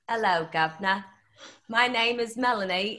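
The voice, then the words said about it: Attempted put-on British accent. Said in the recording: “give us your best uh, British accent ... Hey, that's better than I could do.”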